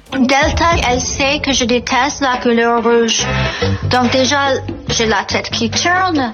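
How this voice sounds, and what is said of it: French with an American accent. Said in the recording (French): “avec un bel accent américain”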